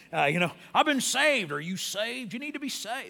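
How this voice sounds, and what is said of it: Put-on Southern US accent. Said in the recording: “You have to almost say it in a southern accent”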